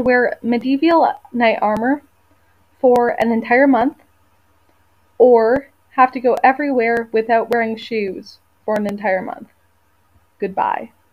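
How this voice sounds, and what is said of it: Canadian accent. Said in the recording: “you could hear that Canadian accent”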